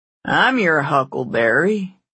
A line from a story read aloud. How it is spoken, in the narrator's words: he said in a lazy southern drawl